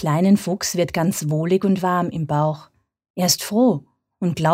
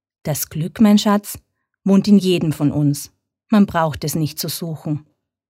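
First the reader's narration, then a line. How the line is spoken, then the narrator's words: Plain. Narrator (German): sagt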